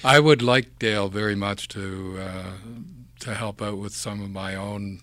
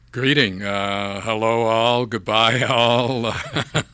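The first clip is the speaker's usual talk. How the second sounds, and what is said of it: Exaggerated radio announcer voice. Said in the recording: “in your best radio voice”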